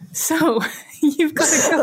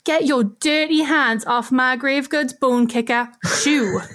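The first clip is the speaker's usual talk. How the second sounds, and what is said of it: Northern accent, ghostly chieftain voice. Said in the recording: “I like that it has a very northern accent. ... I imagined that it was like a northern chieftain or something.”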